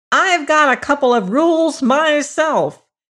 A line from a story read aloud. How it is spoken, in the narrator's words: he cried